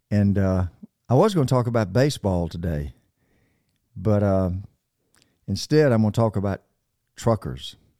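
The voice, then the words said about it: Raspy, hoarse voice. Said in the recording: “my raspy voice ... my sniffles and my raspy voice”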